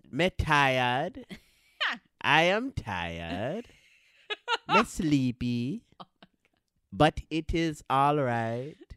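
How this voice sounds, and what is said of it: Sing-song Trinidadian accent. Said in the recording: “That's my Trini accent ... Oh, that was Trini this time ... Trini, you sing when you talk”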